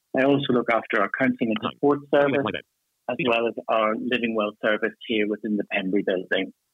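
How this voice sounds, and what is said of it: Irish accent. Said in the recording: “as you can tell from my accent, I'm Irish”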